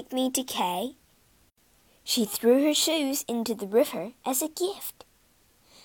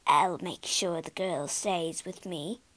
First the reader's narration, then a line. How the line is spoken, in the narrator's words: she muttered